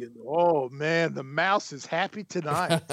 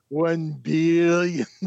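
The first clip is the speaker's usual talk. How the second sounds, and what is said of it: Austin Powers movie villain impression. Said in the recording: “my Austin Powers impression”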